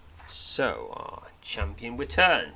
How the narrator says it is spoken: he says, his tone rife with playful sarcasm

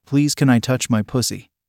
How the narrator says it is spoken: I asked

